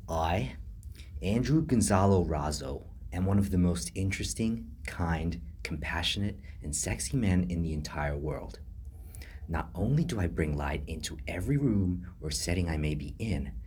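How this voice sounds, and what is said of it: Deliberately bad put-on American accent. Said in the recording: “the terrible American accent that now you have the pleasure of hearing on repeat”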